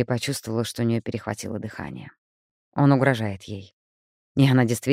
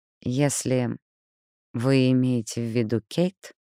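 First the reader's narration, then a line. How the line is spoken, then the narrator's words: Slow. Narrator (Russian): медленно произнесла Элли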